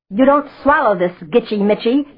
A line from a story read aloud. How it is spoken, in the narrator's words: he kept roaring across to Absol